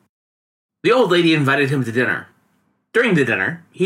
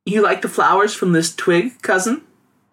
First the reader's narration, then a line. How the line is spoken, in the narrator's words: giggled